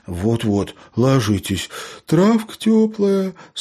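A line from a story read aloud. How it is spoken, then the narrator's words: Sleepy reply. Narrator (Russian): сонно отозвался Лео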